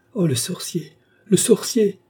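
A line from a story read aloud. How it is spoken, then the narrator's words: Exclaimed. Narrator (French): s'écria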